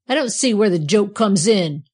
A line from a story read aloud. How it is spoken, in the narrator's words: snapped Tom, who did not at all like the way the andirons and the poker were behaving